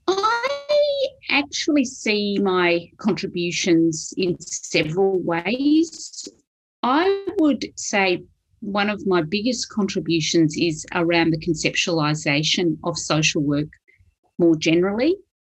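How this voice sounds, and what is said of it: Strong Australian accent. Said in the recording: “I have a strong accent, Australian accent”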